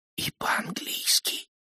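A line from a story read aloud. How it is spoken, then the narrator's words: Whisper with a smile. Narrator (Russian): прошептала она и улыбнулась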